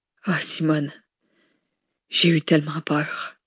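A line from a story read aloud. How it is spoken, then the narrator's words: Man murmuring. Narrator (French): murmura l'homme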